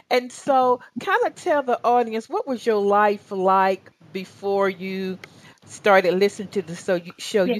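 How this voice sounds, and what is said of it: Southern American accent. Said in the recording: “my Southern accent really attracts people to the show”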